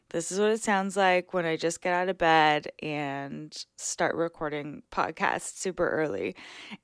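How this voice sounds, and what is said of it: Groggy wake-up voice. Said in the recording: “you're probably hearing wake up voice. So my voice sounds a little different.”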